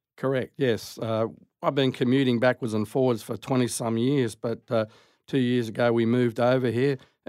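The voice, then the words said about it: Australian accent. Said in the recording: “this weird accent that's much the same as my weird accent ... you're from Australia”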